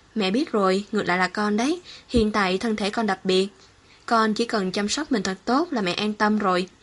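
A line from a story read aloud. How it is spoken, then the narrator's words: Cheerful, smiling. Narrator (Vietnamese): Sở Vân Dung vui vẻ mỉm cười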